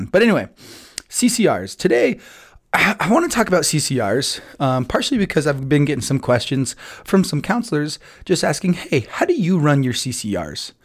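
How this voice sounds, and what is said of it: Hoarse, nearly lost voice. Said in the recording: “pardon my voice, by the way... I was yelling my guts off as well as announcing, so my voice is kind of gone”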